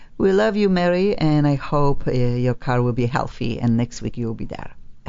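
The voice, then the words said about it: Polish-accented English. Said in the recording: “is from Poland, okay? That's why we call Accent On, because the accented host just cannot get rid of this accent and will stay with me forever”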